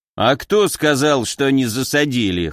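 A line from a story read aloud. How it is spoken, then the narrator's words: Snort. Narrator (Russian): хмыкнул Виктор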